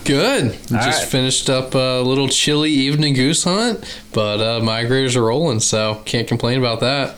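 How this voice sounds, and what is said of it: Slight southern American accent. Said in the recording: “you got just a little bit of a southern accent there. It's not real heavy”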